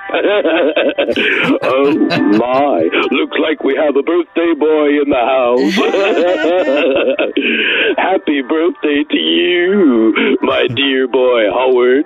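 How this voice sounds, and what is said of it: George Takei impression. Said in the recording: “called in as George Takei. I love that impression”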